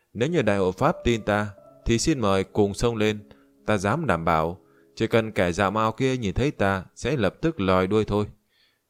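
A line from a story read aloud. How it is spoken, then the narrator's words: Loud laughing. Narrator (Vietnamese): Diệp Kỳ Thu cười lớn còn nói thêm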